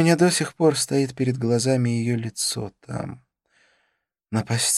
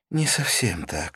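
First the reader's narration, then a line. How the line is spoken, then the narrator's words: Sighing. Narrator (Russian): вздохнула она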